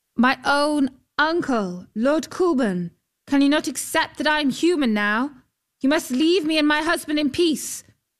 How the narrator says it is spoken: went to stand in the prow of the boat and called out

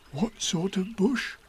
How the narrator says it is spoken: whispered Pooh to Piglet

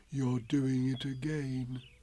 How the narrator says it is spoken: said Pooh sadly

